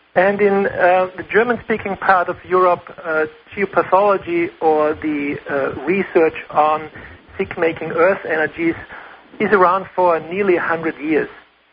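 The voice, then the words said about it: Austrian German accent. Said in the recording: “as you might have heard from my accent ... I'm from Austria, German-speaking.”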